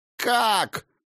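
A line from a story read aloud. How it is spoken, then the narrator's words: Screaming. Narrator (Russian): завопил Скьёльд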